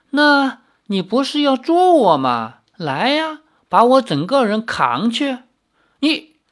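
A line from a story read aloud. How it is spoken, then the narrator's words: Laughing. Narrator (Chinese): 姬三娘笑道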